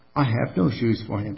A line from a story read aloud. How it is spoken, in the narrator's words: sighed the mother sadly